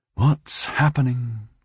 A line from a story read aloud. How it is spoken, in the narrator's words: she sighed